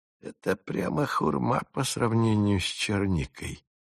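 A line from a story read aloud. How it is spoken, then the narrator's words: Mutter. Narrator (Russian): пробормотал Фиск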